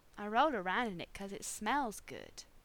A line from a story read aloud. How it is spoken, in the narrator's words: John purred shrewdly